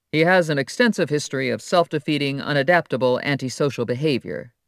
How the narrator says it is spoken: Tanay said

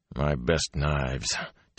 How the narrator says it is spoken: Tom muttered

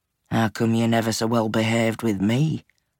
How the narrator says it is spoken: Red murmured

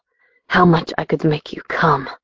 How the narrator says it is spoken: He groaned into my ear, his raspy voice

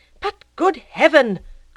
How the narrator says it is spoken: cried the ecclesiastic

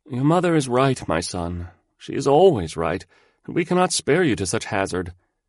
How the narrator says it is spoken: Wang the eldest said feebly

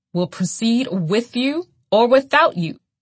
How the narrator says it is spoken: the judge roared

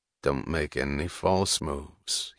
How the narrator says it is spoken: he said in an expressionless voice

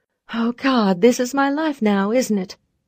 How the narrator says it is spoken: I exclaimed

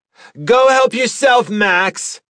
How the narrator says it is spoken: she shouted

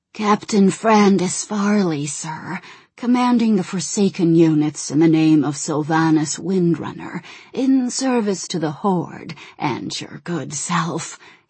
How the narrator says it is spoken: he said in a rasping voice

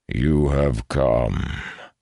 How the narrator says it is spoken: a deep voice rumbled in approval

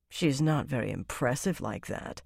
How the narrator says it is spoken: Savannah muttered, frowning

